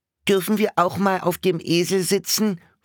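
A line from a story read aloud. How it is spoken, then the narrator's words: Squeaky question. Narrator (German): fragte eine piepsige Stimme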